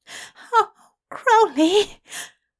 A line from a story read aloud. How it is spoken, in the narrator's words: Aziraphale whimpered